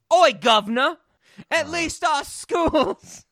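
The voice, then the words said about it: Put-on British accent. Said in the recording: “you're also going to come with a better British accent ... my favorite British line to say”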